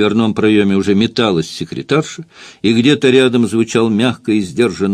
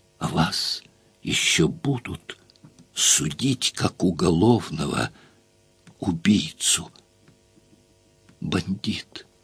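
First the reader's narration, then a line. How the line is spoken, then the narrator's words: Hoarse whisper. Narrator (Russian): сипло прошептала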